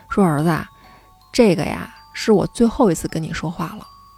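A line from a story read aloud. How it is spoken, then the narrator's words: Sighing father. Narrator (Chinese): 他爸呀就叹了一口气，就看着他说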